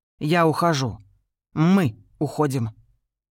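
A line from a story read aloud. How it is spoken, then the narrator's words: Tense strained voice. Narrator (Russian): Рен сглотнула и напряженным голосом ответила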